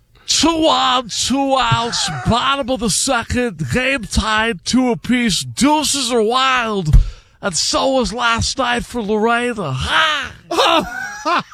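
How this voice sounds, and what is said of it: Imitates another person's voice. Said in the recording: “Do the Harry Carey real quick... impersonation... the impersonation is the best”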